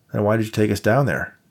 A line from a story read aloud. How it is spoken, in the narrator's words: Dave asked